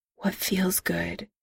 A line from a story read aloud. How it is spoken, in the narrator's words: Eric whispered